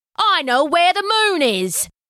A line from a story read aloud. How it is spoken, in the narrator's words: yelled out a man